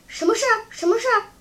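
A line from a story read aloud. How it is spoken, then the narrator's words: Breathless, struggling. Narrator (Chinese): 雨来由于气喘，说不出话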